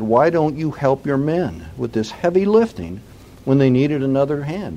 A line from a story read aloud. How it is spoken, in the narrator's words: asked